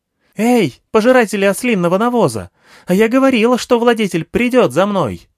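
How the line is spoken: Yelling. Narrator (Russian): завопила Анахита

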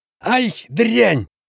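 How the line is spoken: Young man yelling. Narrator (Russian): заорал один из парней

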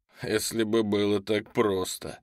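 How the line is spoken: Skeptical snort. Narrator (Russian): хмыкнул Мехди

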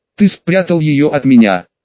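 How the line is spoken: Angry question. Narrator (Russian): зло спросила Магиня

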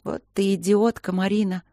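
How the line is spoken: Loud, then groaning. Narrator (Russian): громко произнесла я и застонала

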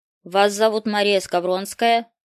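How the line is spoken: Dry question. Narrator (Russian): спросил он сухо

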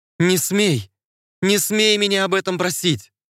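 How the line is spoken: Shout. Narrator (Russian): Закричала ему в лицо

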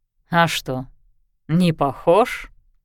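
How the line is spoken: Stranger's snort. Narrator (Russian): хмыкнул пришелец

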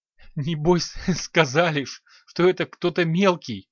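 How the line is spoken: Blurted through laughter. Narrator (Russian): вырвалось сквозь смех

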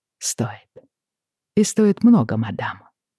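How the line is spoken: Quiet. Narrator (Russian): сказал он тихо

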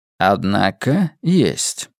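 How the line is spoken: Calm. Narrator (Russian): спокойно ответил Каллаган

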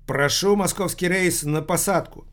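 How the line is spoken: Loud announcement. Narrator (Russian): громко объявила

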